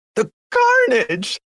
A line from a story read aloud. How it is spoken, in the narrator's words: a female screams